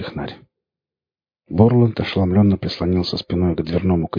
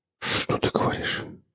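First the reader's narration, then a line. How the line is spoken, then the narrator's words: Man whispering. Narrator (Russian): прошептал он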